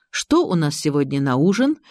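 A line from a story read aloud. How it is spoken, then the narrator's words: Cheerful question. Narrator (Russian): весело спросил Павел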